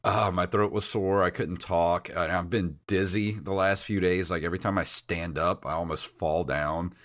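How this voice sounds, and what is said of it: Unusually deep, sick-sounding voice. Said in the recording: “my voice is like eight octaves lower than it normally is, so I actually might sound kind of sexy right now”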